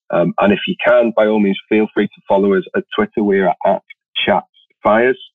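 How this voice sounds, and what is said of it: Somewhat posh English accent. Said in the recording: “apparently a posh English accent ... It's not that posh.”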